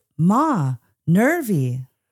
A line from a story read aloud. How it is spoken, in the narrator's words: she called out